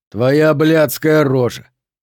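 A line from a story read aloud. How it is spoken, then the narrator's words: Casual everyday voice. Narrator (Russian): непринужденным будничным голосом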